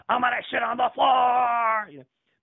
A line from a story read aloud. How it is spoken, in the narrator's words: he yelled like